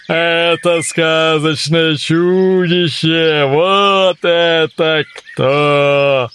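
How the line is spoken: Unicorn shouting. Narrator (Russian): единорог закричал

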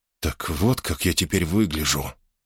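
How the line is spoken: Stunned whisper. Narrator (Russian): потрясенно прошептал он

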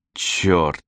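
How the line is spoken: Forced through teeth. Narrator (Russian): выдавила она сквозь зубы

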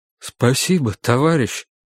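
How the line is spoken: Voice breaking. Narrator (Russian): сказал человек дрогнувшим голосом

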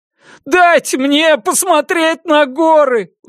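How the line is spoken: Pleading. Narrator (Russian): взмолился Трасдейл

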